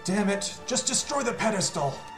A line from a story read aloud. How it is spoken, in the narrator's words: he's going to shout